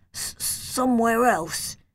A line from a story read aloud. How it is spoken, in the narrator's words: I stuttered